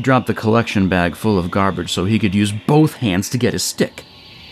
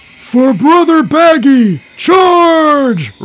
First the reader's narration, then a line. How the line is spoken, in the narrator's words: roared the cup